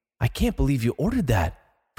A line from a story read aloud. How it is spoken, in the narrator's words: Francine whispers